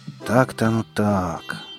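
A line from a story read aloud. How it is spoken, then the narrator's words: Forester's sigh. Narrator (Russian): вздохнул лесник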